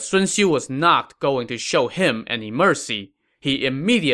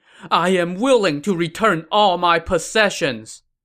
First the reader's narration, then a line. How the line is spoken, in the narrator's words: pleading